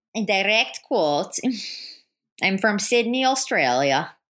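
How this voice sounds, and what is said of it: Put-on Australian accent. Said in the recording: “an Australian accent?”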